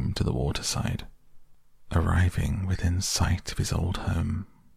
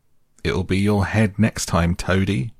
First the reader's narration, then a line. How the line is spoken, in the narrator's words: called out